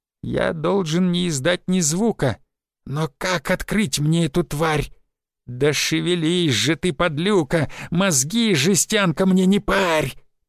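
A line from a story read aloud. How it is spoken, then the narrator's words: Straining growl. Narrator (Russian): прорычал гоб, уперевшись в тумбу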